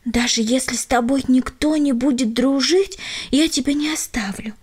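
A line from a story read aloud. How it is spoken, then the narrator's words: Parting whisper. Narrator (Russian): шепнула напоследок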